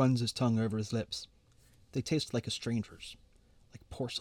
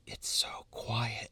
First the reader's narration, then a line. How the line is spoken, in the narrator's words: she whispers